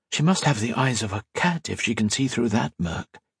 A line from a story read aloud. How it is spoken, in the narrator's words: Colette whispered to Modo